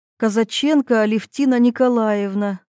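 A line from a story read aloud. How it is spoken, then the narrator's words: Sad smiling young woman. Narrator (Russian): грустно улыбнулась молодая женщина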